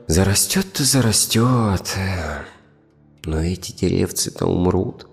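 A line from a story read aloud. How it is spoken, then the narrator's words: Heavy sigh. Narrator (Russian): тяжело вздохнул кедр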